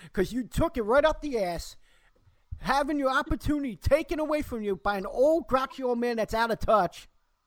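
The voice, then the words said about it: Angry yelling. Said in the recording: “I think I'm upsetting my kid because she's not used to me yelling ... Daddy, why are you yelling? ... Because I'm angry”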